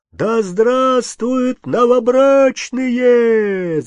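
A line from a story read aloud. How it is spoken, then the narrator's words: Hundreds of voices shouting. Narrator (Russian): закричали сотни голосов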